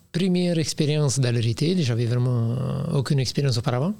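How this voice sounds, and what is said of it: Sing-song foreign accent. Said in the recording (French): “un bel accent chantant”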